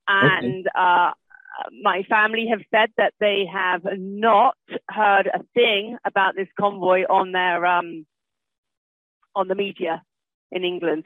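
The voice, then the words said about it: British accent. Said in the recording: “As you can tell from my accent, I am from Great Britain.”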